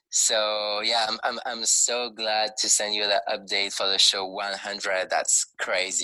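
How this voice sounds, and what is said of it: French accent. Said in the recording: “a very strong French accent, even if I'm French”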